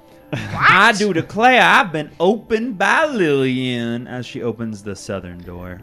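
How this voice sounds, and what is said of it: Put-on Southern US accent. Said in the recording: “It's one of those talking doors. Because it's southern. ... he's the one who did the accent.”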